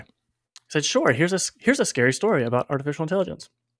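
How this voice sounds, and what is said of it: Light, bubbly AI character voice. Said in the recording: “you do the voice of ChatGPT, it's very light and bubbly”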